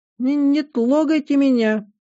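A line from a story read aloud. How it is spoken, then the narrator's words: Cheeky squeak. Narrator (Russian): дерзко пискнул уже относительно взрослый котенок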